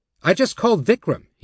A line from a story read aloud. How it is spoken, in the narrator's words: he said testily